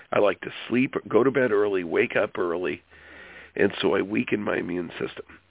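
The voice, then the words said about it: Hoarse, sore-throated voice. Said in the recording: “why I have a sore throat, funky throat right now”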